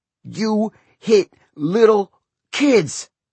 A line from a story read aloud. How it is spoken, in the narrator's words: Chacho shouted between blows